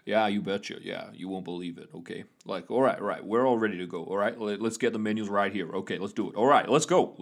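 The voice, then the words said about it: East Coast American accent. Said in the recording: “that typical sort of East Coast outside of New York accent ... it's more of an accent rather than a caricature”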